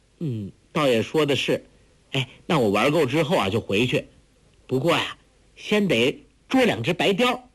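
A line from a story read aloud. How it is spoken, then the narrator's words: Laughing through tears. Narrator (Chinese): 黄蓉破涕为笑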